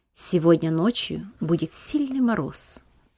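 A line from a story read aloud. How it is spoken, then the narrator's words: Low undertone. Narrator (Russian): произнес он вполголоса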